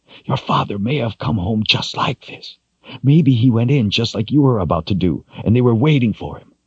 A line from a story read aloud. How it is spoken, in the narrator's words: she whispered angrily